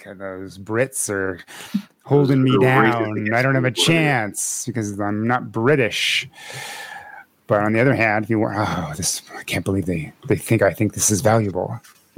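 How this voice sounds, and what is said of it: Imitates another person's voice. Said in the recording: “my Nick impersonation? ... Spot on. Nailed it.”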